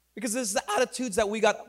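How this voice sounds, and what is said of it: Voice cracks mid-sentence. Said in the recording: “My voice just cracked right there. ... I'm still growing. ... puberty.”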